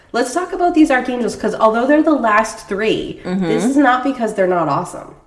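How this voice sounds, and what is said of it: Strained, nasal-sounding sick voice. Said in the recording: “We'll do some editing out if I cough ... My voice is kind of working. ... Fran Drescher and ... are hosting the podcast today.”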